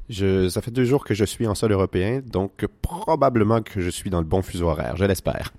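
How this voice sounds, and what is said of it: Québécois French accent. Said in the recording (French): “son accent québécois”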